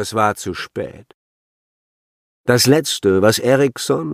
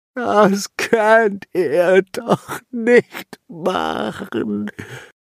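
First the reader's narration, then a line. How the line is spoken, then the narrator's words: Whining, fading away. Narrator (German): jammerte immer leiser werdend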